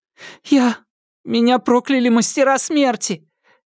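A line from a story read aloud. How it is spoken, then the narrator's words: Near tears. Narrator (Russian): Едва не рыдая, Го Сяофэнь рассказала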